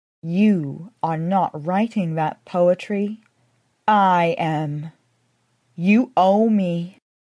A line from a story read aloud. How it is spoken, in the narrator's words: In a solemn voice, she said